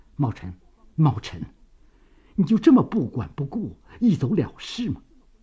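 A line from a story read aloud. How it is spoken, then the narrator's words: Choked voice. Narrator (Chinese): 张学良的语声已经有些哽咽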